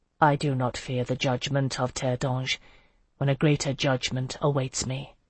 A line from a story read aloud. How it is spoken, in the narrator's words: he said quietly